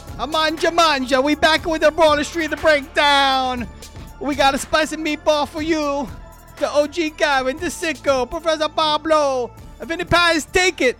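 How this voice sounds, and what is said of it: Shifting Persian-Italian put-on accent. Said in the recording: “the accent and all the places in the world it travels within two sentences ... Persian Italian ... he goes from like an Armenian stereo salesman to a bad Italian stereotype ... to the guy on The Simpsons”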